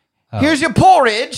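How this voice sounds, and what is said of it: Poor impression of the Robin Hood lion. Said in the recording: “Was that a pretty good impersonation of that lion? ... That was terrible.”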